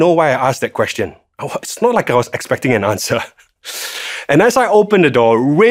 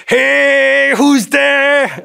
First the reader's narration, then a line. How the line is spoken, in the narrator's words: with my heart absolutely racing, I'm shouting